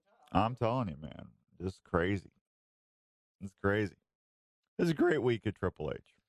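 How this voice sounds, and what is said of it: Strained, worn-out voice. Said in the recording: “losing my voice because I did The Godfather too long”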